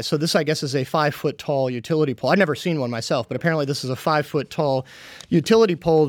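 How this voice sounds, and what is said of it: Skeptical, sarcastic tone. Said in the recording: “You can probably tell from my tone of voice that I'm quite skeptical”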